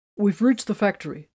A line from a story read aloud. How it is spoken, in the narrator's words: Tiberius answered